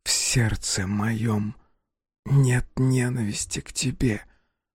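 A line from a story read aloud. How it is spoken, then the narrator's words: Hoarse, choking on blood. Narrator (Russian): прохрипела она сквозь выступающую на губах алую пену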